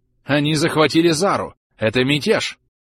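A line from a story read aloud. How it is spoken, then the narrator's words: Exclamation. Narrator (Russian): воскликнула Эстевес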